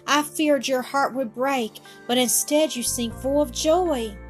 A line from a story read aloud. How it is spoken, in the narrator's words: cried the girl